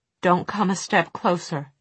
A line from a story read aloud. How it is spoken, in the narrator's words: she said in a shaking voice